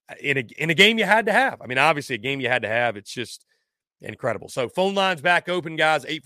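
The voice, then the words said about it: Slightly hoarse, strained voice. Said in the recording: “my voice is going on me just a little bit ... the voice tends to go a little bit”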